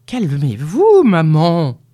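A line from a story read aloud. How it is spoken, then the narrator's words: Grumbled. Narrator (French): grogna Nicolas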